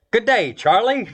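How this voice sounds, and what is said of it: Put-on Australian accent. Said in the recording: “they might hail from Australia ... I threw the accent in myself”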